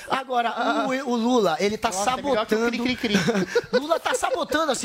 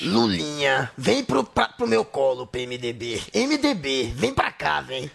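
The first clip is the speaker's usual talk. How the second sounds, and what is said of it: Impression of Lula. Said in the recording (Portuguese): “É a melhor imitação do Lula que eu já ouvi.”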